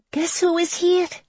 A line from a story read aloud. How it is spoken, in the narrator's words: she cried